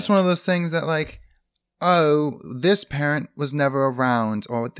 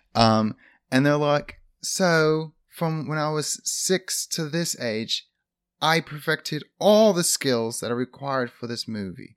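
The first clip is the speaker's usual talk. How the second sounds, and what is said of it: Put-on British accent. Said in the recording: “I'm doing a British accent, which is flawless.”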